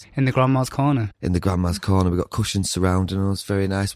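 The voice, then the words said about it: Northern English accent. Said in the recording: “Two loud Northerners ... I love your accents ... Northern accents”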